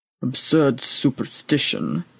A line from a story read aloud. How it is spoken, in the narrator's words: muttered the old priest into his breather